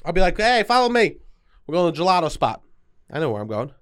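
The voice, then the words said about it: Put-on New York accent. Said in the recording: “this New York accent”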